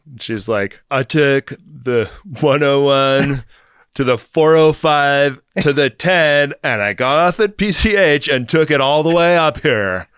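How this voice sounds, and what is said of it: Put-on Californian accent. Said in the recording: “Have you been working on your Californian's accent? It's really sharp. It's not.”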